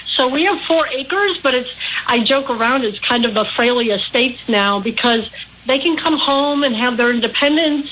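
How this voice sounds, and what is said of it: Midwestern American accent. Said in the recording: “I'm picking up on the accent. Would it be Midwest, right around Ohio, Milwaukee, in that area?”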